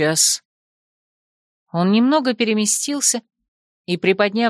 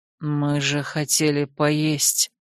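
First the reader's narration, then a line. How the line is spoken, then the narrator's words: Breathy exhale. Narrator (Russian): выдохнул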